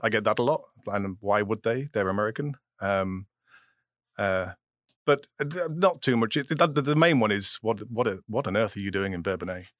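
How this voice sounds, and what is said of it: English accent. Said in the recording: “how come your accent is still the same after 20 years? ... Do your sons have an English accent?”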